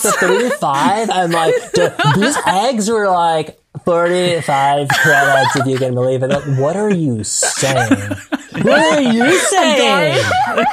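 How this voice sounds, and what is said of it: Put-on West Hollywood valley accent. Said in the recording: “Accent? It's totally West Hollywood. ... I'm not allowed to do the yeah. accent, but you are. ... I have never heard anyone from West Hollywood sound like that”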